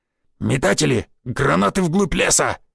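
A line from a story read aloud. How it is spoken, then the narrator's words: Barked command. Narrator (Russian): рявкнул Гвоздев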